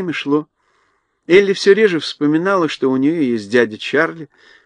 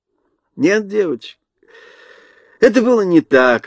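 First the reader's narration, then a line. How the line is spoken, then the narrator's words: Laughing. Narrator (Russian): рассмеялся Чарли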